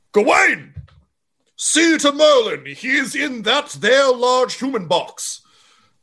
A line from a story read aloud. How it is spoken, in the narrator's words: stands and yells